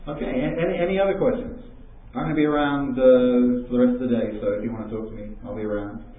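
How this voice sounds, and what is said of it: English accent drifting toward American. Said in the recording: “my English accent has kind of changed ... It's become really kind of American now. It sort of floats around”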